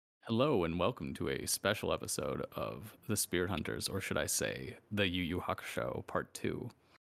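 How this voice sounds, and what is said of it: Smooth sexy announcer voice. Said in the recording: “your sexy announcer voice”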